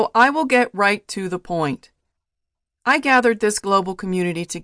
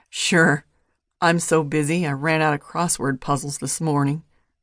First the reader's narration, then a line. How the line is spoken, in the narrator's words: muttered Hopper